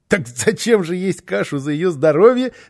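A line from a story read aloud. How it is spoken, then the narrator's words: Laughing child. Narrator (Russian): рассмеялся малыш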